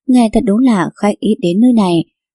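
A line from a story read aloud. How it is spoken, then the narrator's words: Smiling. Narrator (Vietnamese): Tà Quyền mỉm cười mà nói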